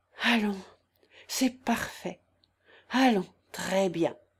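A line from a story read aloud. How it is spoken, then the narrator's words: Murmured. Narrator (French): murmura-t-il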